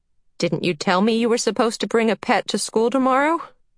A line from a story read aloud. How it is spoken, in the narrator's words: Charles Wallace laughed